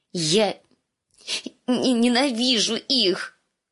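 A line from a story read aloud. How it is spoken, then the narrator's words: Sobbing, choked. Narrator (Russian): выдавила сквозь рыдание раскрасневшаяся Ария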